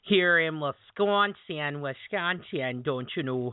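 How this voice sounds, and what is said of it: Put-on Northern Minnesotan accent. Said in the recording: “a Northern meets, like, Minnesotan accent hybrid”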